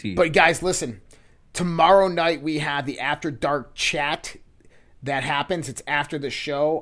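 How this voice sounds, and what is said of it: Strained, worn-out voice. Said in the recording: “My voice is done. I'm shot right now.”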